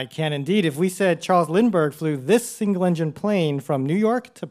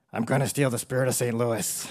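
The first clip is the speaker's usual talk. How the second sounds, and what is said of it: Weak Nicolas Cage impression. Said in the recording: “your best Nicolas Cage impression ... it doesn't need to be a good Nicolas Cage”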